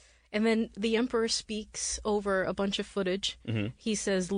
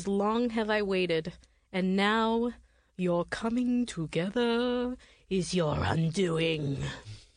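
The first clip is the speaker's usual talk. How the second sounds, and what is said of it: Spooky impression of the Emperor. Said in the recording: “Is that a good impression? ... Very good. Okay. I was spooked.”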